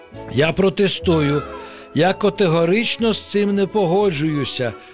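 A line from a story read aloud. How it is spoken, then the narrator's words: Hoarse croak. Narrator (Ukrainian): прохрипів рак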